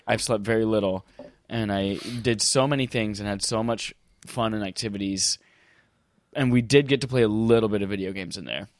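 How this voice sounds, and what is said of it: Tired, exhausted-sounding voice. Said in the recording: “as you can probably tell from my voice and my enthusiasm today, I'm exhausted as fuck”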